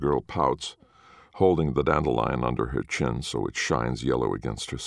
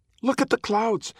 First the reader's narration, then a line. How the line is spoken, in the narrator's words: cries, crumbs flying from her mouth